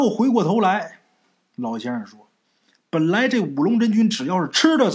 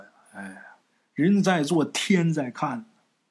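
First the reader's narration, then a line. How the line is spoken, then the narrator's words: Sighing old man, meaningful. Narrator (Chinese): 老先生一边叹气一边意味深长的说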